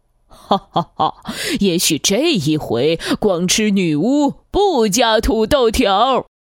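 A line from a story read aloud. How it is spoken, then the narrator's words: Sinister gloating laugh. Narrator (Chinese): 大恶龙狞笑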